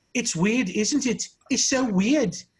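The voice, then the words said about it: Imitated Scottish accent. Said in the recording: “the Scottish people behind me, I don't know if I could do the accent”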